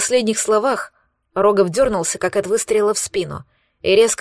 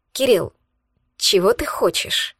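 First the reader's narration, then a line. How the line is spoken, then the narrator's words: Almost unhappy question. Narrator (Russian): спросил он почти несчастным тоном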